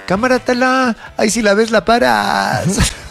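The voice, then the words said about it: Put-on Mexico City chilango accent. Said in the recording (Spanish): “todo es más divertido en acento chilango.”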